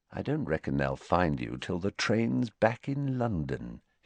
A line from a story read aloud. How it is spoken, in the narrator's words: said quietly